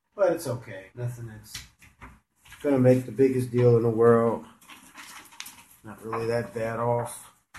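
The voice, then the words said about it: Hoarse, cold-affected voice. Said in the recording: “I have a cold. That's why my voice is absolutely torched.”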